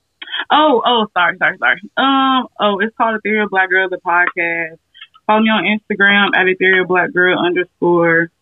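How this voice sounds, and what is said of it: Slight Deep South accent. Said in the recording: “like old country ass... you sound like you are... A little bit. Just shout like a little deep south accent.”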